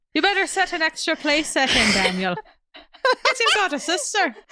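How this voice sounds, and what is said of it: Not-very-good put-on Irish accent. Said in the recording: “when you do that accent, like that character comes alive ... Irish with four pots and pans to my name ... It's not even a good Irish accent.”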